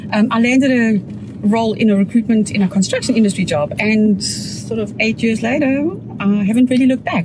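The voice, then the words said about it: South African accent. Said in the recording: “You're not from South Africa with that accent.”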